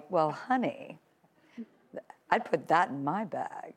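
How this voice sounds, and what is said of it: Impression of a TV character. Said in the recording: “your best celebrity impression ... I feel like doing Samantha Jones”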